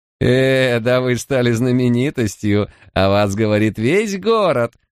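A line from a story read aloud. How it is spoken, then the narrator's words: Laughing declaration. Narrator (Russian): с хохотом заявил Дерем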